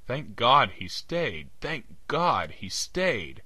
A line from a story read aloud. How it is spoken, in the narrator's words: I cried hysterically